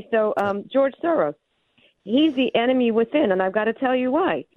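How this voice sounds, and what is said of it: Breathless, out-of-breath speech. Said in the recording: “I'm out of breath. I went down the stairs.”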